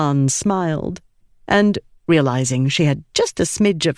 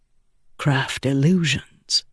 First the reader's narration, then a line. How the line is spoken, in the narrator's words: Adolin said softly